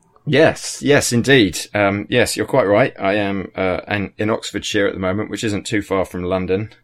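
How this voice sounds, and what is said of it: English accent from Oxfordshire. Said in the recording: “speaking from your home in Oxfordshire, in England... it's refreshing to hear a different accent”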